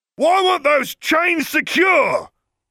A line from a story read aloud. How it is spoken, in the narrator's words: Vernon roared, apoplectic with rage